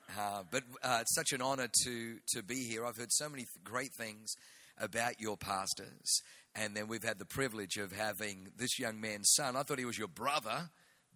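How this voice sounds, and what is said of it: Australian accent. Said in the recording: “I was born in Germany, so I got a German name, but I grew up in Australia, so I have the Australian accent.”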